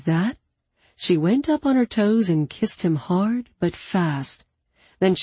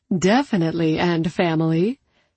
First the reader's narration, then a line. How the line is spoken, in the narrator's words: she agreed with a little laugh